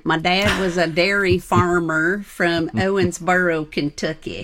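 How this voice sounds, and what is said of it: Put-on Kentucky accent. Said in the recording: “I have to do this with the right accent.”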